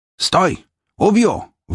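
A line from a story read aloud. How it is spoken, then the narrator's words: Shouted. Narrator (Russian): выкрикнул он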